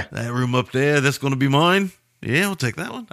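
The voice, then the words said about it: Uncertain put-on Australian accent. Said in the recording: “I think I'm doing an Australian accent. I don't know what I'm doing.”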